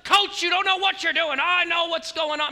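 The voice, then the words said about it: Yelling. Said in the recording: “you're yelling”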